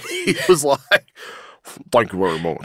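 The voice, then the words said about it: Imitates another person's voice. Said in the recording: “That was pretty good... That was really good... In your voice impersonating era.”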